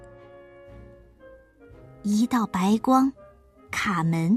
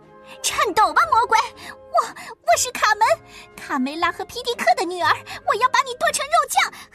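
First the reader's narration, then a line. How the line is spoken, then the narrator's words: Loud shout. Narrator (Chinese): 卡门高喊道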